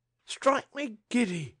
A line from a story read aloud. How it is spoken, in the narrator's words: cried Old Tootles